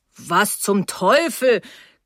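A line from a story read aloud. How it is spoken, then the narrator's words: Growling. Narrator (German): knurrte Mr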